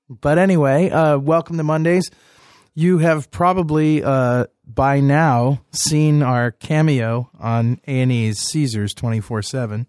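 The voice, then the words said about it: Hoarse, high-pitched voice from a cold. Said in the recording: “with a cold and sounding a lot more hoarse than usual ... I got that high voice there”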